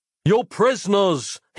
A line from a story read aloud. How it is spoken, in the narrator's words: yelled through the closing gap